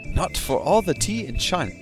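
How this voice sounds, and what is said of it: Attempted British accent. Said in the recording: “I should be doing this with a British accent ... how do I do British accent?”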